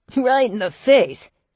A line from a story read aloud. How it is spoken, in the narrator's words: Neil laughed